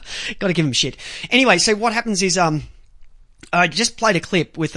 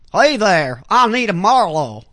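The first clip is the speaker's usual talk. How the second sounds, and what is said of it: Put-on southern accent. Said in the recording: “she's got that hint of southern accent. So it's probably more along the lines of”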